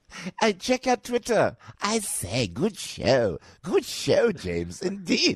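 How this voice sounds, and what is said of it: Terry-Thomas style posh voice. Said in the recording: “I sound like Terry Thomas ... It's me trying to lose the Jersey accent”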